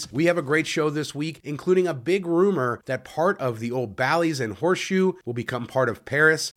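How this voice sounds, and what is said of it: Voice sounds unwell, under the weather. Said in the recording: “I apologize for my voice this week. I've been a little bit under the weather.”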